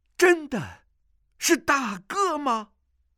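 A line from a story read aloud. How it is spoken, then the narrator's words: Joyful voice. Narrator (Chinese): 声音中满是喜悦之意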